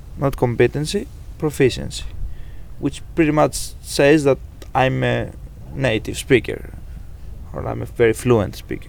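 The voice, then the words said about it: Greek accent in English. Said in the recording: “you may already be hearing this Greek accent”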